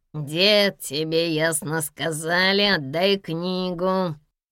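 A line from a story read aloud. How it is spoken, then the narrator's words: Nasal-voiced man speaking. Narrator (Russian): проговорил гнусавый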